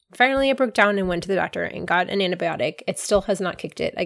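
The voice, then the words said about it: Congested, sick-sounding voice. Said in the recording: “I'm sure you can hear in my voice. I have a sinus infection.”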